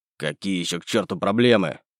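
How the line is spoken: Angry snap. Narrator (Russian): Зло бросил Семенов

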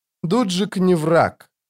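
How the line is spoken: Tired. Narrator (Russian): устало сказала она

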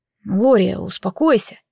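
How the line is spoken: Quiet, soothing. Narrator (Russian): тихо сказал Мирит

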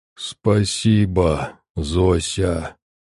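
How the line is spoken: Clearly audible monster moan. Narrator (Russian): вполне различимо простонал монстр

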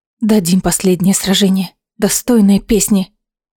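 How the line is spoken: Whisper. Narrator (Russian): прошептала она Абрухасу

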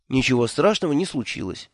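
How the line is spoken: Soft, gentle. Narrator (Russian): мягко сказал я ему

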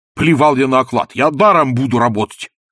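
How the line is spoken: Agitated shouting. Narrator (Russian): кричал инженер, взволнованно

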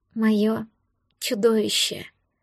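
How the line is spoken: Sleepy, smiling. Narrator (Russian): Сонно улыбнулась я

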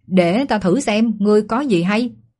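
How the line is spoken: Shout. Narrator (Vietnamese): Lục Chu quát

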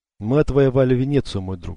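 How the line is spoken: Sighing. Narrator (Russian): вздохнул он

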